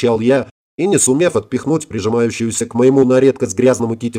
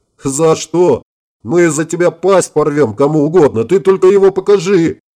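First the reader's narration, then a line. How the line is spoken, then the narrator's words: Yell. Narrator (Russian): заорал Гельмут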